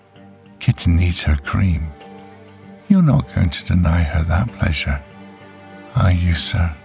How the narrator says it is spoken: giggling coyly and saying

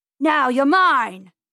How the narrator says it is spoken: yelled Mr

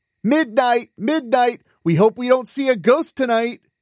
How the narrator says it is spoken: Arthur called out

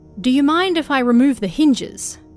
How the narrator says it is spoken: he asked

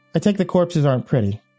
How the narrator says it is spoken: I said

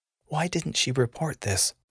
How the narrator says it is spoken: She muttered under her breath, as mad as the mod would allow

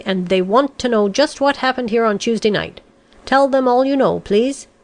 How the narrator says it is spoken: said sharply

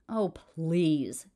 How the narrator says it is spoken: Cameron spat back

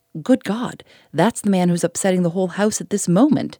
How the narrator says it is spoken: exclaimed the landlord

